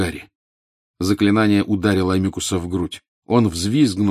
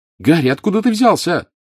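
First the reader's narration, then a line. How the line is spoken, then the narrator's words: Shouted. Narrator (Russian): крикнула Джинни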